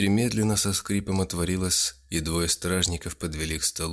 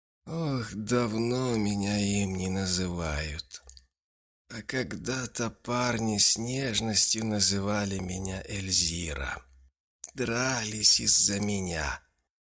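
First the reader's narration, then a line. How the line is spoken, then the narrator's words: Hoarse, miserable voice. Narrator (Russian): хриплым голосом ответила несчастная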